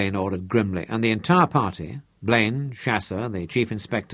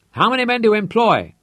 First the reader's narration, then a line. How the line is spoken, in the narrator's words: Blaine had to shout to make himself heard in the uproar